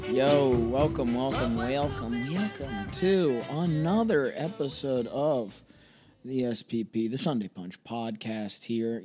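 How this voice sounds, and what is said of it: Slightly hoarse, worn voice. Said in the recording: “my voice is a little gone.”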